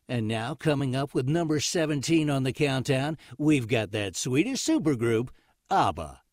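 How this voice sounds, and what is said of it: Casey Kasem radio countdown impression. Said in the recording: “do you have a Casey Kasem style to you? ... your impression. Oh, my impression of Casey Kasem”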